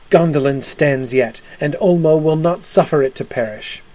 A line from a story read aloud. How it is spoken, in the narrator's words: Tuor, speaking wildly for ruth and love of the king, cried